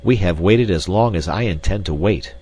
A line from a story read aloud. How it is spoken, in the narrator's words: he said roughly